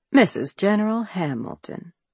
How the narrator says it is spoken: with a formal bow, Monroe drawls

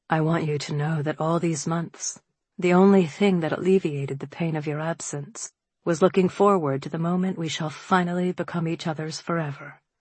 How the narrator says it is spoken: he said softly, intimately

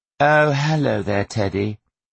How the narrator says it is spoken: Millie drawled carelessly

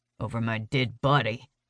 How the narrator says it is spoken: he mutters

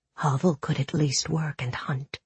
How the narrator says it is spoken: she whispered

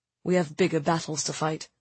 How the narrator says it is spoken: he murmured

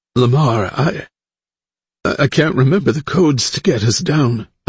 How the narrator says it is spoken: Elise said, her voice cracking

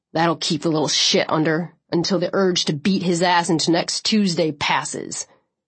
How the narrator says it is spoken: he growled

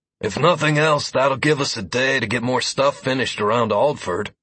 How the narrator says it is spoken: Deckard said wearily

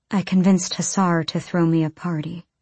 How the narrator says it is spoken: Irene said quietly

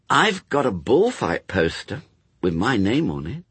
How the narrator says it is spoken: said Brian slowly

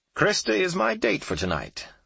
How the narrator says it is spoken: the gentleman exclaimed in an enthusiastic voice

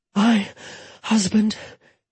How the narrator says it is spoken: Jetta gasped

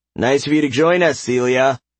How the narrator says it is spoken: Caden crying out a taunt before adding

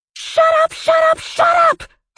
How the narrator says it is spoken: Harley screamed

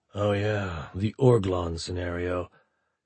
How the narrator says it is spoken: muttered

